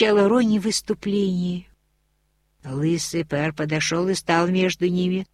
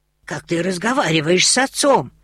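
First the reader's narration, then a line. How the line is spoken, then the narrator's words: Bald nobleman exclaiming. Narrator (Russian): воскликнул лысый пэр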